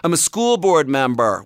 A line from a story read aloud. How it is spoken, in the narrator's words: one of the parents down the hill shouted